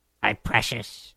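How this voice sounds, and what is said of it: Imitation of a creepy creature voice. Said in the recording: “my Gollum or Smeagol impression. It's not very good.”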